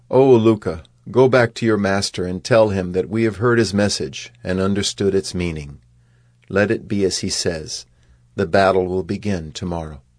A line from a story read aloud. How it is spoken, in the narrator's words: Krishna, who laughed and said